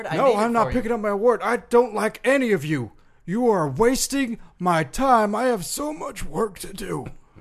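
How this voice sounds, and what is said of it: Strained, pained, rough-throated voice. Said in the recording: “You sound like you might die... my voice is hurting so much... this throat thing”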